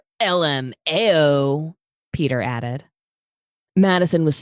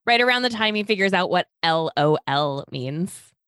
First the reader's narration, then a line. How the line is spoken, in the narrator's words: Talia said